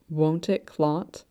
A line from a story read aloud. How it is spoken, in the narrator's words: Shen Qingqiu whispered, mouth gone dry